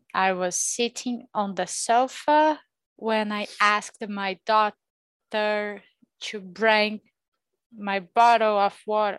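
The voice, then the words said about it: American accent. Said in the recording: “No, American accent again... you've got that American accent”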